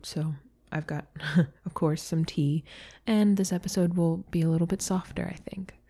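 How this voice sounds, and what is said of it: Slightly strained, sore-throated voice. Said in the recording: “I have a little bit of a sore throat ... my voice is going”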